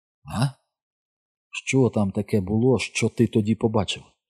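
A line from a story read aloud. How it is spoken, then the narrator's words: Whispered. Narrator (Ukrainian): прошепотів я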